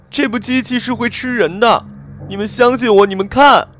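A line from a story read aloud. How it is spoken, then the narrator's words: Shouting. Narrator (Chinese): 他冲着越来越多走出来的同事喊着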